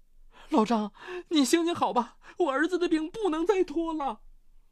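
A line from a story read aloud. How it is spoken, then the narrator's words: Pleading. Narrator (Chinese): 见老张半天不吱声，陈局哀求道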